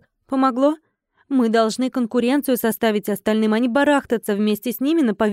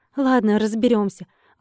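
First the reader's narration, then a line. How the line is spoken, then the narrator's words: Sighing. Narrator (Russian): вздохнула я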